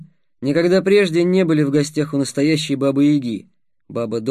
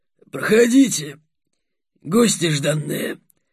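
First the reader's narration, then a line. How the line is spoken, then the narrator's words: Old woman's hoarse bass. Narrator (Russian): проговорила старуха хриплым басом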